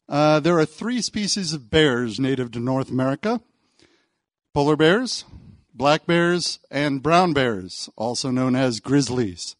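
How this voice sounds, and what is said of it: North American accent. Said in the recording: “As you may have detected from my accent, I come from North America”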